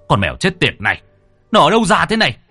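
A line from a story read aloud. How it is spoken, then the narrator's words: Angry shout. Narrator (Vietnamese): tức giận quát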